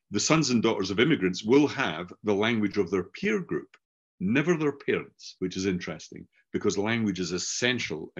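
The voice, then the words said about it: Scottish English accent. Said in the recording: “I grew up learning a Scottish variant of English because mm-hmm. everybody I knew was Scottish, hence my accent.”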